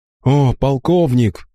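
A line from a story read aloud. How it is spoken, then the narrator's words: Exclamation. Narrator (Russian): воскликнул Бастиан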